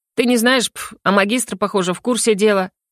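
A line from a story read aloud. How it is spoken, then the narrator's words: Grumble. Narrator (Russian): проворчал Йо-Йо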